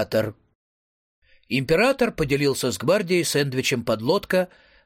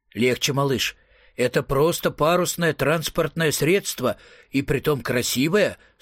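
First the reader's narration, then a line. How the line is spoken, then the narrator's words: Plain. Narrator (Russian): сказал император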